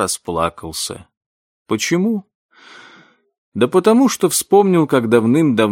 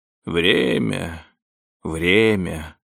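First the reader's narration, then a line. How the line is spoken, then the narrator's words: Grumble. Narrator (Russian): проворчал мистер Крузетти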